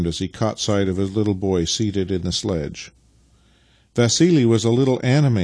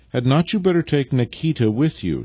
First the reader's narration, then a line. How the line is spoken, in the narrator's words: she said, stepping timidly forward